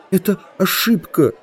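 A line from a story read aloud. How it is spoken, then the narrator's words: Whimpering. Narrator (Russian): захныкал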